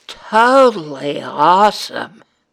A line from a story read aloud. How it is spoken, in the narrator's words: lit up and exclaimed